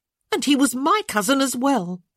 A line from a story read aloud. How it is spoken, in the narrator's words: Francesca said sharply